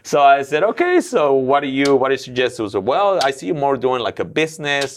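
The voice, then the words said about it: Non-native English accent. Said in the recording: “with your accent, it's going to be even harder”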